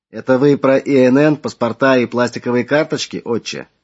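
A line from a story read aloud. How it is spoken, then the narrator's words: Plain question. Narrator (Russian): вновь спросил Игорь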